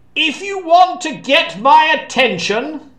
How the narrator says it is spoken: Arthur shouted up to the ramparts

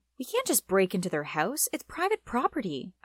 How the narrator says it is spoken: I exclaimed

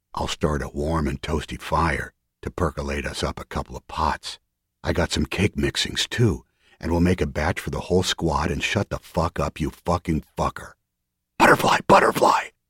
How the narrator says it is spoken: A sharp whisper came from the dark to the left of the hole

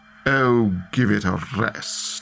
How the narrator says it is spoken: purred

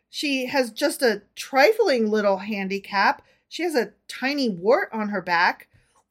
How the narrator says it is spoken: he faltered

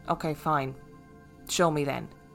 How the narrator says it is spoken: quietly said

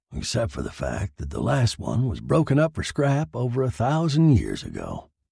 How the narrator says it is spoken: he mumbled

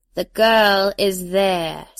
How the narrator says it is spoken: Sibella intoned

